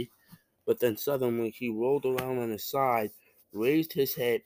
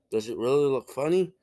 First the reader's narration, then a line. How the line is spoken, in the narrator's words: he asked in an anxious voice